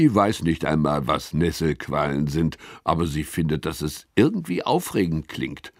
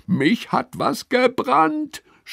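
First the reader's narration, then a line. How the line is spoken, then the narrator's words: Screaming. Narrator (German): schreit Lilly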